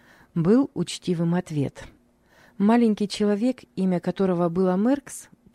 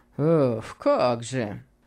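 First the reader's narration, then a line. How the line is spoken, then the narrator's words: Obsequious mumbling. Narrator (Russian): пробормотал его услужливый приятель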